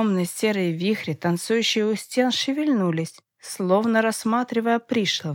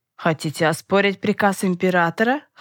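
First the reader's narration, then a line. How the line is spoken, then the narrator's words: Scoffing. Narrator (Russian): хмыкнул Осимов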